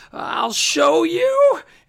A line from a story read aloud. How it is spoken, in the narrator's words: because Misinformation was getting mad, you hear her scream